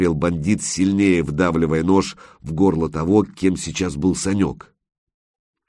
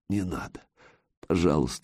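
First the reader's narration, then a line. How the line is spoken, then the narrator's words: Whisper, lips barely moving. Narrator (Russian): шептал он, почти не шевеля губами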